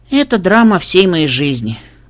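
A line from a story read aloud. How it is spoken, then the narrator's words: Sighing. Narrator (Russian): вздохнула кобылка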